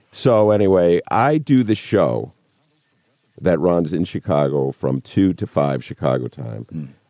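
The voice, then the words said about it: Rich radio-style speaking voice. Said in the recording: “I love your voice ... I wish I had your voice ... what a radio voice”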